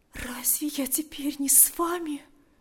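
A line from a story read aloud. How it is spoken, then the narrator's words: Whispered. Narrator (Russian): прошептала она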